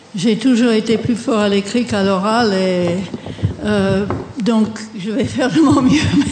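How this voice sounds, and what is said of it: Non-native accent speaking French. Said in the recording (French): “mon accent ... il reste toujours l'accent”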